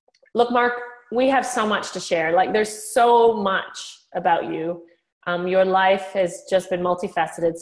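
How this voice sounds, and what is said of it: Mixed, hard-to-place accent. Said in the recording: “As long as you can understand my accent ... So my accent is a little confused. I've been here for 17 years”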